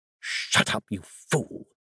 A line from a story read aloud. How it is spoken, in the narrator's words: his sister hissed